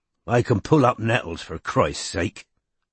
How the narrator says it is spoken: said Strike irritably

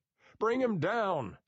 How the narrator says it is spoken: somebody shouted

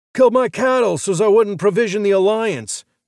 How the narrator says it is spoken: the drunk bellowed

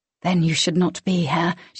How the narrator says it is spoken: she whispered

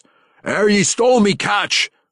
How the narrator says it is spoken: the captain of the second ship roared

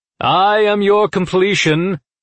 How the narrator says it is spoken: the lead scythe said loudly

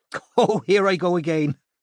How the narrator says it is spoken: said Una, laughing as she straightened up and wiping her eyes

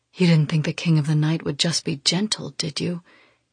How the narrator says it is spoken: says, his voice husky

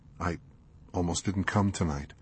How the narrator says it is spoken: he whispered softly

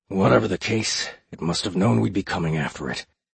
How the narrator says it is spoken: the spymaster mumbled, mostly to himself

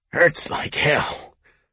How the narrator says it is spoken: Court had groaned

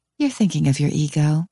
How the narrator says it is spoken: say sweetly

